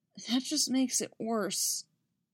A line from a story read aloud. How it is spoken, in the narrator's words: she said miserably